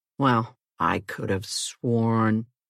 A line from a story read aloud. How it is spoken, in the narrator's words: he muttered